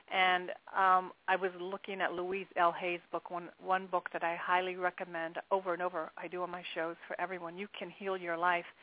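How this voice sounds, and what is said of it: Voice with a slight cold. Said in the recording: “I have a little bit of a cold”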